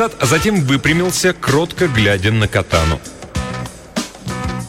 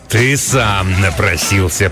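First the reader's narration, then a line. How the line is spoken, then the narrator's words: Growled. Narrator (Russian): прорычал он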